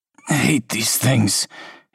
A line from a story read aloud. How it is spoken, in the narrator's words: he groans